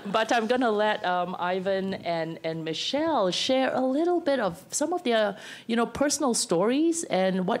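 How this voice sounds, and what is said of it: Raspy voice. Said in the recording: “apologize for my voice; it's been really raspy because of the casino smoke”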